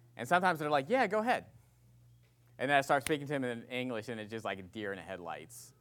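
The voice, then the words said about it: West Virginia accent. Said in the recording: “my West Virginia accent. ... who's this country bumpkin”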